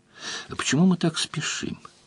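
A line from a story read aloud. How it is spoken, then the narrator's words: Quiet question. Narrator (Russian): тихо спросила у него Делия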